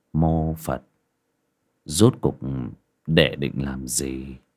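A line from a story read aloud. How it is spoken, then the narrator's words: Muttering. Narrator (Vietnamese): Sư lẩm bẩm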